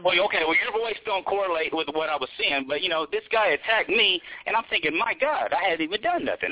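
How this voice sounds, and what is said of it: Southern Texas accent. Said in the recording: “I'm from Texas. You can tell by my accent. ... I just can tell it was from the South.”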